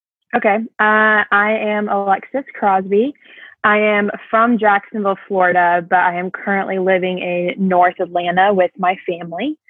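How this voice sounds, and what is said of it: American accent. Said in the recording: “you've got an American accent.”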